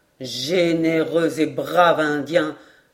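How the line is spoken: Exclaiming. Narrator (French): s'écria Glenarvan

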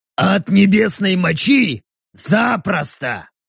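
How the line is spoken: Grumbling. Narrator (Russian): проворчал Рек

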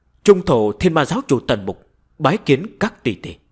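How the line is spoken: Raised voice. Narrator (Vietnamese): Tần Mục cao giọng nói

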